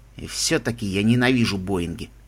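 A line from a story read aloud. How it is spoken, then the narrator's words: Grating through teeth. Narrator (Russian): проскрежетал Мигель сквозь зубы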